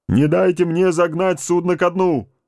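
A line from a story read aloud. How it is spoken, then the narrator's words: Bark through megaphone. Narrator (Russian): рявкнул в рупор Соломон Раут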